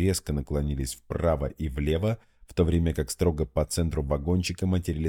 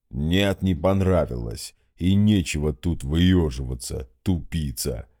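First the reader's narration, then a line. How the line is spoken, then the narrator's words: Low booming drone. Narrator (Russian): прогудел Гундахар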